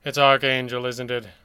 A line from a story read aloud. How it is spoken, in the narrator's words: the red panda sighed